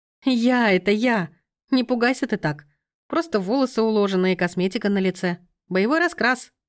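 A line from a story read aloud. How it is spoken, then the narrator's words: Giggling. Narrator (Russian): хихикнула Лена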